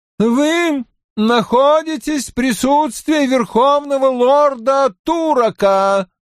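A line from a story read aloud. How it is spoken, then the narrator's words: Chanted announcement. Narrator (Russian): нараспев огласил желтоволосый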